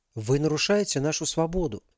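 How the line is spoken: Calm and firm. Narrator (Russian): спокойно, твердо ответил Ярослав

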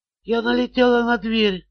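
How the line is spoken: Whispered. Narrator (Russian): прошептала она

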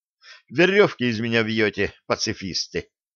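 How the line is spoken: Dejected sigh. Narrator (Russian): удрученно вздохнул Блад

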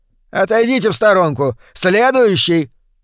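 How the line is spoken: Called out, cashier. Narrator (Russian): выкрикнул кассир

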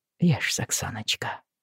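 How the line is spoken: Soft, gentle. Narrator (Russian): сказал мягко

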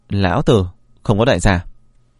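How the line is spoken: Cold. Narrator (Vietnamese): Vân Phi Dương lạnh lùng nói

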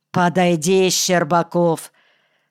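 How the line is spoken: Lisping boss speaking. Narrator (Russian): с шепелявостью, присущей многим коми, сказал начальник

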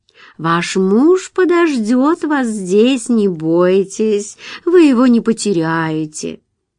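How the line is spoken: Bittersweet soothing tone. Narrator (Russian): чтобы успокоить Джулию, она произнесла кисло-сладким тоном

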